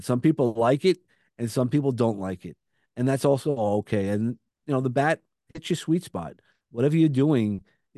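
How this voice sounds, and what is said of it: Brooklyn accent. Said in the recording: “I have a Brooklyn accent. No matter what you want to say about me, you're going to hear the Brooklyn accent.”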